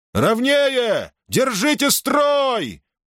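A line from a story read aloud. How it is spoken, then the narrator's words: Roared at full power. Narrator (Russian): проревел Перикл во всю мощь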